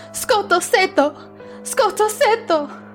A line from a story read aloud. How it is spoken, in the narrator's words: I was screaming